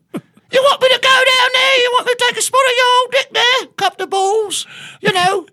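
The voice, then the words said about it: Put-on British accent. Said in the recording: “Yeah, I could do a British accent.”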